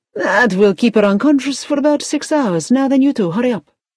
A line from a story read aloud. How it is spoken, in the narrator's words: the doctor said cheerfully